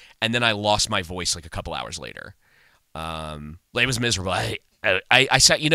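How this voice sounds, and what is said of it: Usual voice. Nothing is said of it.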